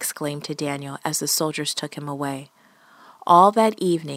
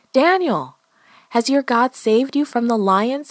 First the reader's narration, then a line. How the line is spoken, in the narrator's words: He shouted